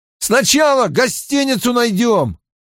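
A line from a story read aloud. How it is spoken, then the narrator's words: Shouting. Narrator (Russian): прокричал Мэтт Тому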